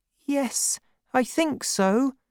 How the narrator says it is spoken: answered nervously

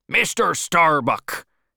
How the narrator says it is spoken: shouted Ahab

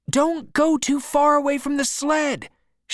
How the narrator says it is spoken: shouted Henry

